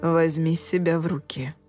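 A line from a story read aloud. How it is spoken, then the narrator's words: Whisper. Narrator (Russian): сказал Джулиан шепотом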